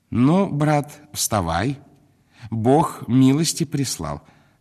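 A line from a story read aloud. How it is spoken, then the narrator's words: Joyful, confident. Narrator (Russian): сказал он, таким радостным тоном, словно и в самом деле милость у него в кармане была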